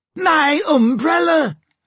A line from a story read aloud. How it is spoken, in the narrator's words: shrieked Mrs